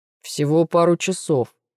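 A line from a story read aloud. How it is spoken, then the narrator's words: Deep voice. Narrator (Russian): своим глубоким голосом произносит Шон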